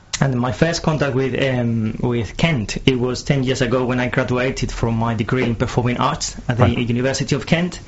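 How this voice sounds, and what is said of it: Spanish accent, sometimes mistaken for Italian. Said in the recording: “I've got an accent... People think I'm Italian, but actually I'm not. I'm from Madrid”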